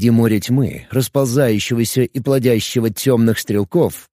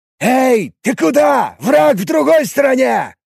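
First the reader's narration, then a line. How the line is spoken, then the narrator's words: Mage shouting. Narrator (Russian): кричал на одного из воителей маг атакующих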